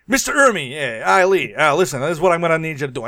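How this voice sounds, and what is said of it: Aggressive Italian New York accent. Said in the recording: “we do an impression of Stanley Kubrick, it will always be aggressively Italian 1970s New York accent”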